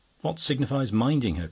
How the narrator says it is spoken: cried the host

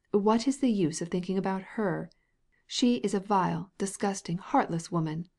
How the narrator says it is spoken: exclaimed the princess

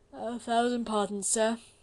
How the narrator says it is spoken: said Blakeney with a slight yawn

